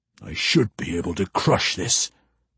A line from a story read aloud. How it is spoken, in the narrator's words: Yutha Gentol growled